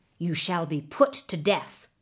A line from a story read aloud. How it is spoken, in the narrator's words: the governor added sternly